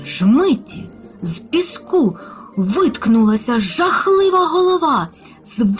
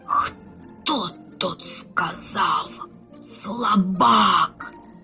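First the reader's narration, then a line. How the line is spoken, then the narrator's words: Antlion hissing. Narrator (Ukrainian): засичав мурашиний лев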